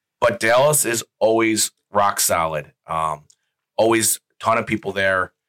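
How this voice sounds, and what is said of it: Low, sultry, worn-out voice. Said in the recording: “I'm still recovering. Yeah, we can um, hear it. If you can tell from my voice, your sultry voice ... I wish I could have this voice all the time. I think it sounds so much better”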